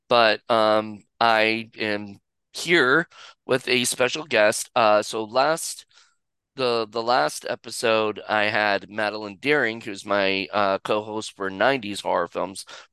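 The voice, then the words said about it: Sick-sounding voice. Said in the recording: “I'm a little sick, so if my voice sounds a little different than normally does, that's because it is”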